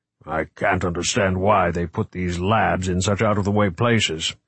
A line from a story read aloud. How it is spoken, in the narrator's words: he grumbled